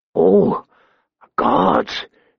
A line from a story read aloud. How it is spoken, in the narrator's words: he moaned, as his under tunic began to redden